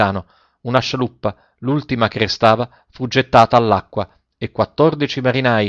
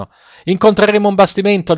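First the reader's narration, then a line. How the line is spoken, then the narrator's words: Sailors shouting. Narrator (Italian): gridarono i marinai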